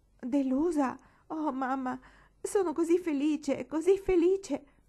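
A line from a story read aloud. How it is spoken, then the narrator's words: Moaned. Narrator (Italian): gemette Marigold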